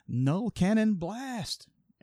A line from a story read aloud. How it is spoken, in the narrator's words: Starscream would yell